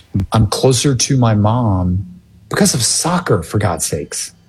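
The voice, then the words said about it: Emotional, choked-up speech. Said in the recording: “I'm getting emotional thinking about it now”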